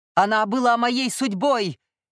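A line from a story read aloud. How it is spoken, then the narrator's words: Angry growl. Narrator (Russian): гневно зарычал Милай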